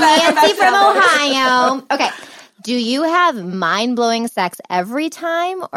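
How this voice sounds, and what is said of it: Usual voice. Nothing is said of it.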